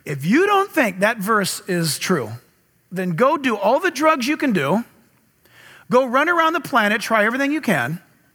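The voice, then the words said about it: Sarcastic delivery. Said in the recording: “This is a sarcasm, okay? ... I'm being sarcastic right now.”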